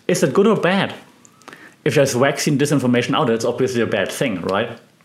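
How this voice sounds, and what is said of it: German accent. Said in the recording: “speaking in this German accent”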